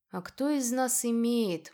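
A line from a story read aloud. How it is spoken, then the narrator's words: Gloomy retort. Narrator (Russian): мрачно парировал Адер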